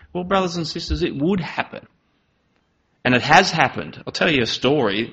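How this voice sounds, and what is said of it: Lazy East Coast Australian drawl. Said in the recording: “I'm from the East Coast and I have a really lazy drawl ... Instead of saying Australia, usually we just start with the S ... if I do lapse into my drawl, that's just me naturally ... I mumbled all the time”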